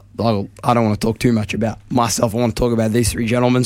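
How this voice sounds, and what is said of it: Hoarse, strained voice. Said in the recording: “I've lost my voice. ... we're stuck with this for the week”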